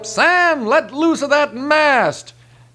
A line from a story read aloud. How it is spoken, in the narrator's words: The captain hollers up